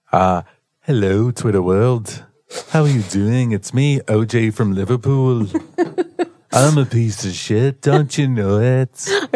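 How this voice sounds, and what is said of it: Imitated Liverpool Beatles-style voice. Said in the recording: “can you do a little Beatles for us? ... I love your Beatles impersonation.”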